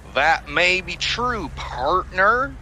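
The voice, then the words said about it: Attempted American accent. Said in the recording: “I was hoping to get more of an American accent ... Is that a good accent? ... It is an accent. ... It's something.”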